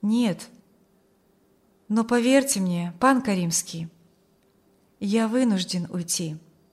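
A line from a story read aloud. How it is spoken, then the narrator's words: Calm young man's objection. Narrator (Russian): возразил юноша спокойно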